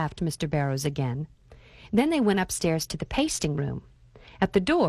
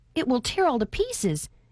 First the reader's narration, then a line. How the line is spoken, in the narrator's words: exclaimed Reuben